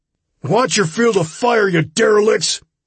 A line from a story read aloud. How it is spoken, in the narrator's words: shouted uselessly